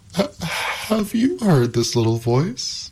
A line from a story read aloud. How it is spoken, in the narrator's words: cried Pandora